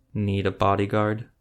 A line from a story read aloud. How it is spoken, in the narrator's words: asked softly